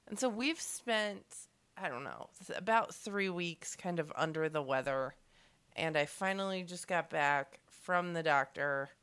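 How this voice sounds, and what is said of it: Deep, husky sick voice. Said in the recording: “I've got this, like, deep, sexy voice”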